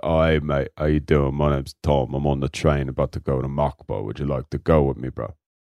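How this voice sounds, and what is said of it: Low-voiced, laid-back British impression. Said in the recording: “He's a Brit ... He's got a really low voice, bruv. He sounds like this, and he's a real big stoner ... That's your best accent, I think. ... That's really good. ... that was pretty good.”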